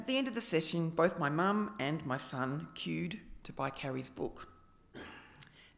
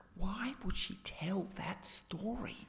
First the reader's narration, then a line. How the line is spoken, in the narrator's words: My friend Nellie, a marketer, whispered